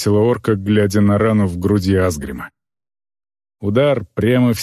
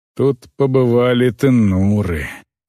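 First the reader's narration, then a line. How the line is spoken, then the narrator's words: Grumbling orc woman. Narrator (Russian): проворчала орка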